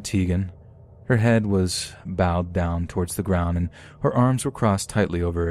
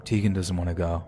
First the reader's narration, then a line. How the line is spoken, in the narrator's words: Ben said in an apologetic tone